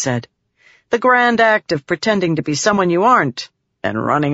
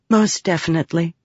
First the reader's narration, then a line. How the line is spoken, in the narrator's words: Shallan said softly